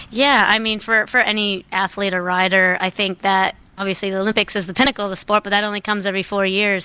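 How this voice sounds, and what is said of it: American accent. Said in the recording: “You probably can hear the American accent here”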